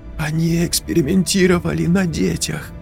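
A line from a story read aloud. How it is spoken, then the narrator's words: Horrified whisper. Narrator (Russian): Прошептала Настя с ужасом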